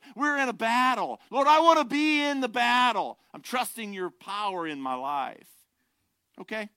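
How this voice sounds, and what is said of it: Emotional yelling. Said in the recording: “emotion's coming from. Sorry if I'm yelling. Don't mean to yell. ... Maybe I do mean to yell.”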